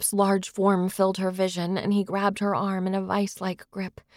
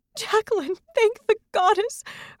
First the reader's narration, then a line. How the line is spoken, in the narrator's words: sobbed